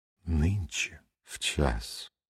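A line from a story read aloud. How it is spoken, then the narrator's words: Whispered. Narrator (Russian): прошептала она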